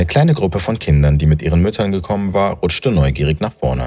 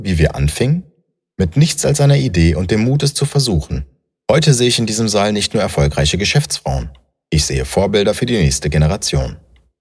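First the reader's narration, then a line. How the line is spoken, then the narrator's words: Warm voice. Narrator (German): begann Sarah mit warmer Stimme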